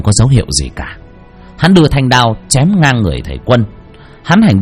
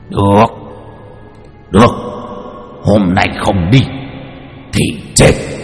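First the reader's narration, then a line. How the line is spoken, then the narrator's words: Furious laughing roar. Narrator (Vietnamese): Quỷ tướng quân bị thầy Quân chửi một tràng, giận đến nỗi cười lớn rồi gầm lên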